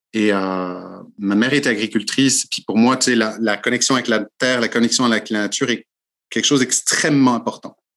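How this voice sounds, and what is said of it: French-from-France accent. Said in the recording (French): “mon accent, non, tu entends mon accent. Hein, je suis français d'origine.”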